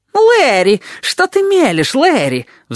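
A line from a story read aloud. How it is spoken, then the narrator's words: Shrill squeal. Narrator (Russian): взвизгнул он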